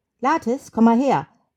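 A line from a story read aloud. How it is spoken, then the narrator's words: Calling across. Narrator (German): ruft er hinüber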